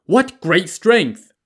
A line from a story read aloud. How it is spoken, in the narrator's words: people shouted